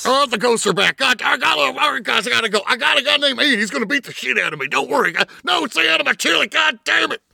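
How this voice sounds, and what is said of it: Dead-on Alex Jones impression. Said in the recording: “this impression ... My impersonation is pretty dead on ... a real Alex Jones clip versus playing ours”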